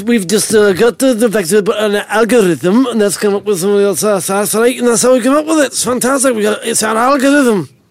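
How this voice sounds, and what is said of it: Vague put-on Scottish-ish accent. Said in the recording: “I was trying to work out for a while what accent you were doing there ... I'm heading towards Scotland somewhere.”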